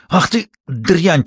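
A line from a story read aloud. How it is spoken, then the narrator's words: Furious wheeze. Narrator (Russian): просипел он, бешено вращая глазами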